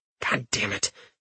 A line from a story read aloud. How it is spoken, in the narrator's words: Richter muttered under his breath